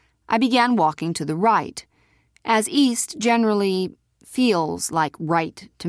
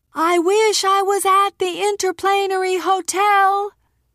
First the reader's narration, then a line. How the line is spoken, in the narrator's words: shouted